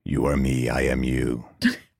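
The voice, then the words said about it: Creepy modulated voice. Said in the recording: “creepy voice? ... my new modulator”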